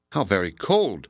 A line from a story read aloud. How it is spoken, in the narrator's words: I exclaimed